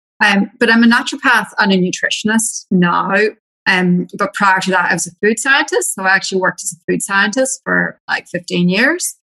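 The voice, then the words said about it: Irish accent. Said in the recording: “yes, I'm Irish ... I've held on to my accent because my husband's also Irish”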